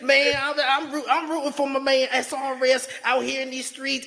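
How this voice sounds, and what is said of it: Impression of Briscoe. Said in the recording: “my Briscoe impersonation”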